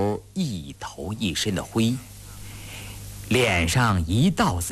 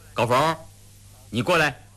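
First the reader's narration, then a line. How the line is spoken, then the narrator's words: Hurried and loud. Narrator (Chinese): 胤祥忙高声地说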